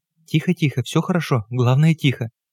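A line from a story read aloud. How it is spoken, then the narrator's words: Whispering. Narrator (Russian): Маргарита Тихоновна шептала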